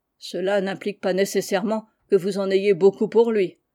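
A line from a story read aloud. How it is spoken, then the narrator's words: Sullen reply. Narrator (French): répondit Jack d'un ton maussade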